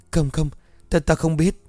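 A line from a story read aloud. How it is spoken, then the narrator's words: Panicked voice. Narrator (Vietnamese): nói trong hoảng hốt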